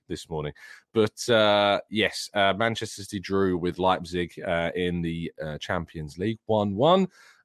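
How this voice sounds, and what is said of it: Deeper, raspy sore-throat voice. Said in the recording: “my voice is going to sound a bit weird. I've woken up with a little bit of a horrible throat ... apologies if I sound a little bit deeper or raspy”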